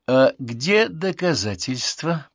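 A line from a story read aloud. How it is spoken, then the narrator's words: Inner voice, nastily polite. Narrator (Russian): проговорил внутренний голос противно вежливым тоном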